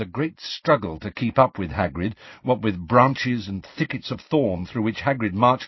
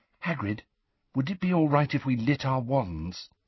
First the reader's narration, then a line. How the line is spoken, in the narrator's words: said Hermione quietly